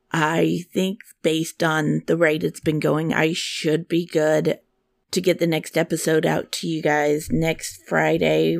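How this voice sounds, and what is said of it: Sick, impaired voice. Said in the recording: “an upper respiratory started uh, tearing through my house. And as you can tell, my voice is still not up to par”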